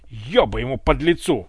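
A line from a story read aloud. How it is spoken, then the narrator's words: Overwhelmed barking. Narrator (Russian): рявкнул от избытка чувств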